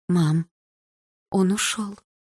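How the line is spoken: Lifeless voice. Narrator (Russian): безжизненным голосом сказала мама

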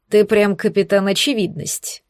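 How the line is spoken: Snorting chuckle. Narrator (Russian): хмыкнул Алекс

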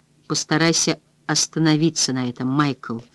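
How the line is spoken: Gentle. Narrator (Russian): мягко сказала она

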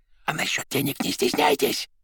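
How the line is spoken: Whispered addition. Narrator (Russian): шепотом добавил он

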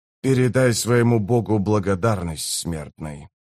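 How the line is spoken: Grumbling. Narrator (Russian): проворчал он

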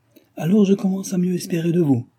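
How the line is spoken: Exclaimed. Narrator (French): s'écria-t-elle

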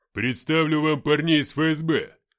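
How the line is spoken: Deep bass voice. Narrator (Russian): пробасил Грива

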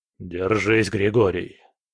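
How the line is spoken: Gloomy voice. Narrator (Russian): мрачным голосом произнес Кретов

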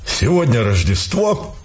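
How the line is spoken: Solemn declaration. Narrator (Russian): торжественно заявил полковник

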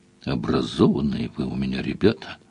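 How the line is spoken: Thoughtful. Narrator (Russian): сказал Сварог задумчиво

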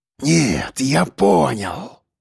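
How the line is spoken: Hiss. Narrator (Russian): прошипел он

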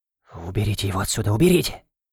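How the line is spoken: Whispering. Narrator (Russian): зашептал

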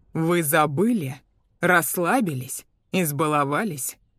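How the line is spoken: Rough interruption. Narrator (Russian): Холс грубо перебил

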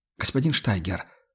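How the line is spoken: Timid mutter. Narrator (Russian): робко пробормотал Майк

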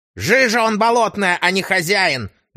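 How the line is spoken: Barking snap. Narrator (Russian): рявкнула

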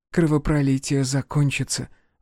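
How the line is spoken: Timid whisper. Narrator (Russian): робко прошептала она

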